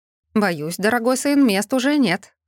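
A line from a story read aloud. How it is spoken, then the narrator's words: Master snorted. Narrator (Russian): хмыкнул магистр Вандергрим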